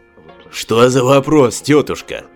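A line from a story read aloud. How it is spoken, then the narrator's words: Snorted. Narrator (Russian): фыркнул голограмм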